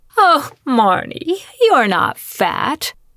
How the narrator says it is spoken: Abby lied through her teeth

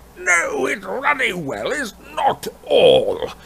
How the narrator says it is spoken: bellowed Uncle Vernon

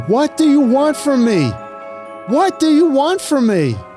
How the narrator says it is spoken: Austin yells to the sky

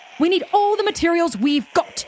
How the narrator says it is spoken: screamed Harry

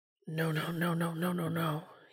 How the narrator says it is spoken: he mutters

